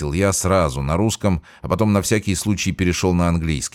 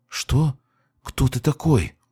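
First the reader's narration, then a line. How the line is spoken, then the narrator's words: Forced out, strained. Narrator (Russian): выдавил из себя старик на русском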